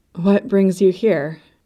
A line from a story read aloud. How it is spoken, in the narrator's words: the Domina asked